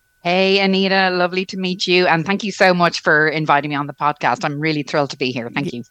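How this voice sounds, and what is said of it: Irish Dublin accent. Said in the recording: “I love your accent ... It's a good Irish brogue from Dublin ... haven't lost my Irish brogue yet”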